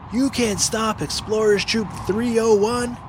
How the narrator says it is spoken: yelled Finn

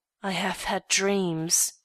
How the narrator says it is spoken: she murmured

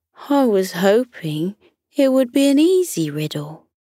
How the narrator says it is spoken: Jake sighed and said to Lily

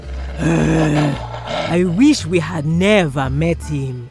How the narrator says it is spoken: growled the wolf

